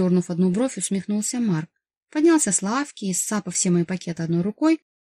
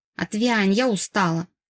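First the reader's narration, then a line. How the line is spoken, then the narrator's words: Snapped. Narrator (Russian): Огрызнулась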